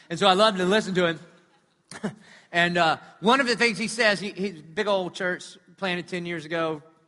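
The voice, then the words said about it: South Carolina Southern accent. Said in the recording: “he talks like I do from South Carolina ... Isn't this a godly accent?”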